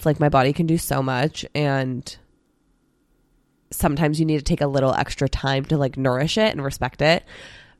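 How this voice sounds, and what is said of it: Voice giving out, strained. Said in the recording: “my voice is going”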